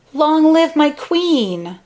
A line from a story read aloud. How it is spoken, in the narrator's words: cried